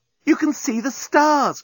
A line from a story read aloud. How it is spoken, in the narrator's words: cried Nettie